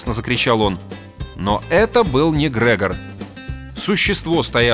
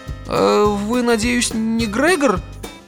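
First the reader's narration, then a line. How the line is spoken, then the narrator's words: Timid, shaken question. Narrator (Russian): Робко справился Арнольд, слишком потрясенный, чтобы действовать разумно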